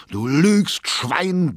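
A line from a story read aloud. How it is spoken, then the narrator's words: Roared. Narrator (German): brüllte Erzum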